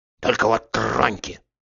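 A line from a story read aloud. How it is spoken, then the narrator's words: Furious rasp. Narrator (Russian): яростно захрипел он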